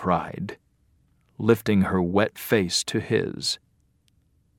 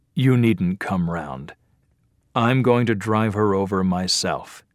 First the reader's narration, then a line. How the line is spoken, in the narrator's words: he answered